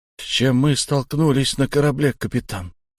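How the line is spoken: Quiet question. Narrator (Russian): тихо поинтересовался Шон

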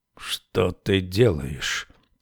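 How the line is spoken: Quiet question. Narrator (Russian): тихо спросил король

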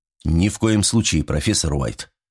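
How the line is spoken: Stern quiet tone. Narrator (Russian): суровым тихим тоном произнес Ланге

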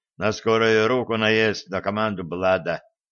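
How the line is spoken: Dejected sigh. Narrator (Russian): Удрученно вздохнул Шреддер

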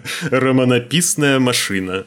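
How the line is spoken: Laughing. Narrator (Russian): рассмеялся Смайк

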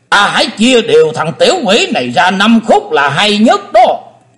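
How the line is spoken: Deep eerie shout. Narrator (Vietnamese): âm ma giáo chủ đã trầm rợn quát lớn

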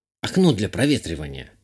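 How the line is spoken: Curt mutter. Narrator (Russian): буркнула Зурба

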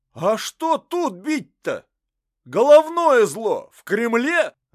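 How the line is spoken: Shouting man. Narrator (Russian): закричал еще один мужик

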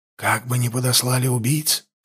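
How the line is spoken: Whisper. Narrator (Russian): шепнул Даргаш

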